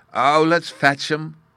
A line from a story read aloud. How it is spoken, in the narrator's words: cried Bruno